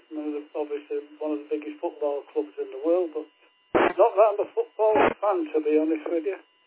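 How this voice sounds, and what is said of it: South Manchester English accent. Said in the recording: “accent is, it's a Manchester accent, but it's South Manchester, Stretford.”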